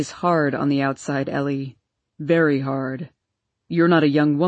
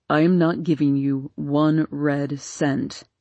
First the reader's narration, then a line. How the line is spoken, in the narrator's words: said Papa coldly